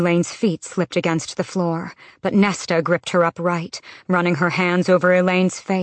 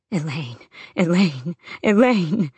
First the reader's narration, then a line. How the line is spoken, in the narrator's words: sobbed